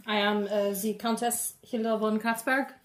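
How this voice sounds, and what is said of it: Put-on European accent. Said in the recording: “I see you from Europe ... An interesting accent.”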